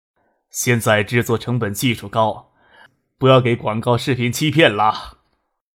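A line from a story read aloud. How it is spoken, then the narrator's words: Laughing. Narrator (Chinese): 唐学谦笑着说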